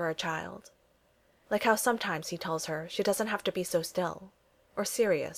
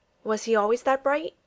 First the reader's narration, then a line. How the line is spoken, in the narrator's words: he finally blurts out, the question coming out before he can stop to think